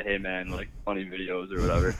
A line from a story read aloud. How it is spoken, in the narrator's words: A couple of guys like chuckle and say